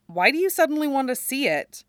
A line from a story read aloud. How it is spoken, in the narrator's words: His father lets out a sigh